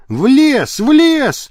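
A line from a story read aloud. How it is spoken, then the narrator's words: Shouted. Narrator (Russian): крикнул он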